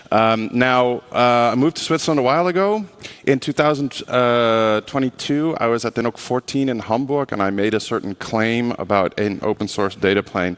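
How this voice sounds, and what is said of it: American-sounding accent. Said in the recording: “I sound American”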